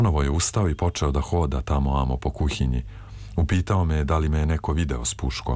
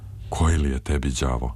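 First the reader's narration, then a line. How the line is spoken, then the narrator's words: Sighing question. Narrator (Serbian): uzdahnuo je i pitao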